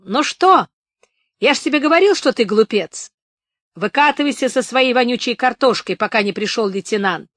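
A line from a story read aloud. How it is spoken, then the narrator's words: Shouting guard. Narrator (Russian): Знакомый часовой крикнул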